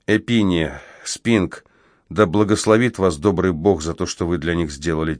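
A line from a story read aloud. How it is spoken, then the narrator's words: Quiet, fervent. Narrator (Russian): тихо проговорил я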